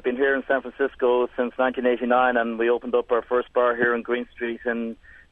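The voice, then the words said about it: Irish accent. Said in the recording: “Ah, well, that sounds like an Irish accent. ... Yeah, very much so. Very, very much so.”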